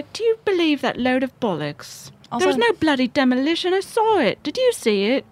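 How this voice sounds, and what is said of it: Put-on British accent. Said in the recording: “Do you like my British accent, you guys? ... I love it.”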